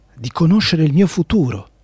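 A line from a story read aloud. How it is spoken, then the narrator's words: Whisper. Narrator (Italian): sussurrò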